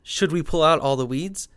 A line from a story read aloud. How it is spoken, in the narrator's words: asked